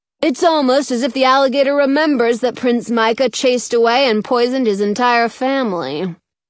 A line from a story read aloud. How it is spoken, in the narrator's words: Lawrence says dryly